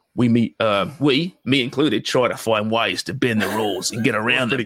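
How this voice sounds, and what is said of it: Put-on Australian accent. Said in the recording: “Let me put me in my Aussie accent.”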